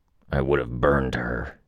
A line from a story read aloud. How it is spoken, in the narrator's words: Lung growled the words